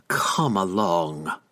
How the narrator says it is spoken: growled

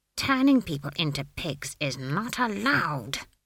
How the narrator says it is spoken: she hissed

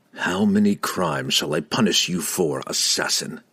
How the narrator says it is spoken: Drizzt growled

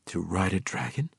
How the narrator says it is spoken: Drizzt replied, his voice barely a whisper

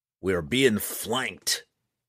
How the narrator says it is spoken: Roddy McGristle snarled

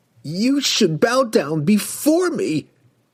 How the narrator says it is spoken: he screamed at Drizzt

